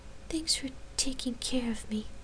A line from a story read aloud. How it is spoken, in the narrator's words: she whispered